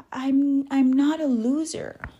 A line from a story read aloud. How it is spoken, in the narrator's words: Kaylee cried